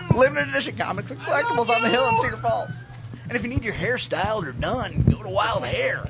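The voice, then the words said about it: Radio announcer voice. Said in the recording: “That was my radio voice”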